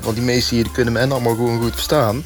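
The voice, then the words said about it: Brabant Dutch regional accent. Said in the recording (Dutch): “genomineerd in de categorie mooiste accent van Nederland, Brabants.”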